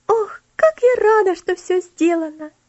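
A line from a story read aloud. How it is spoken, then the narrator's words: Joyful exclamation. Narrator (Russian): радостно воскликнула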